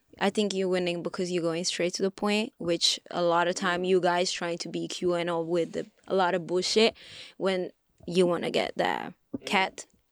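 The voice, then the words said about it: Unusual non-native accent. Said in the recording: “I have a weird accent, but they told me it's very cute.”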